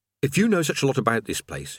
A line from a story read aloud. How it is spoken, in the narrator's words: he said